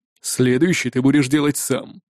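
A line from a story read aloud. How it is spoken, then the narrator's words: Wry snort. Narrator (Russian): хмыкнул Тарир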